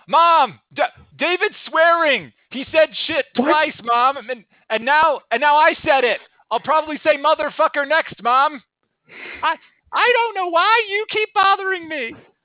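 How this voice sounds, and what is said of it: Shouting. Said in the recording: “stop shouting”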